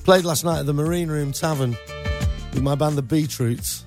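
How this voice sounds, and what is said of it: Hoarse, worn-out voice. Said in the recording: “coughing ... Can you hear my voice is a bit like shot?”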